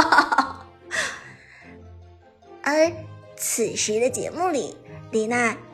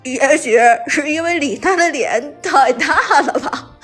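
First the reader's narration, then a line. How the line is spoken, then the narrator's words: Laughing. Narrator (Chinese): 马海龙笑着说道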